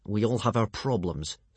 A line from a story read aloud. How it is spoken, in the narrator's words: snapped Hiccup crossly